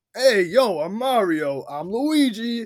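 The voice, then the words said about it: Exaggerated wacky Italian accent. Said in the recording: “wacky Italian accent ... Do you think the accent was a little much?”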